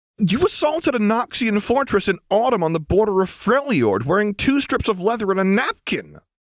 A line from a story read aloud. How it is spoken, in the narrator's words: Lux blurted